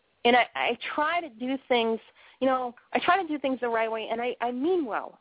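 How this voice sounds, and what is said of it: Boston accent. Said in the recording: “I talk funny. Listen to how I talk. I talk funny. I mean, I got the Boston accent”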